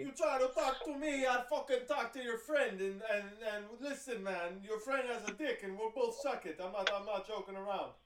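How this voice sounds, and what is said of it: Italian accent sliding into Middle Eastern. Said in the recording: “you were doing Italian for Dawood's mom and then your Italian went Middle Eastern. That was actually incredible. It was a clean swap.”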